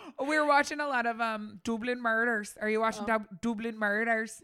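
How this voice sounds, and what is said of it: Usual voice. Nothing is said of it.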